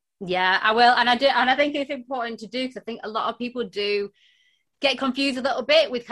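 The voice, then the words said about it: Broad northern English accent. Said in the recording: “that deep, wonderful accent of yours, because you're based up north ... I'm in Lancashire ... My accent is super broad, super broad.”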